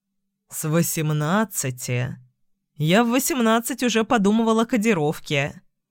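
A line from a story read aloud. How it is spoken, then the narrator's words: Joking chuckle. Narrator (Russian): хохотнул, шутя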